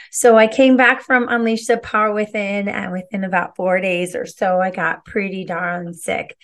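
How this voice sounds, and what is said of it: Voice not yet fully recovered. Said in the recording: “As you can probably already hear, my voice has not yet fully recovered”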